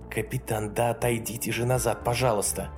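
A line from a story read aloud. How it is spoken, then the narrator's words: Hiss. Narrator (Russian): прошипела сержант Тейлон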